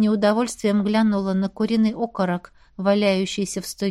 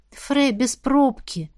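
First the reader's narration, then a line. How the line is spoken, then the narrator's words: Sighing. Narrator (Russian): вздохнула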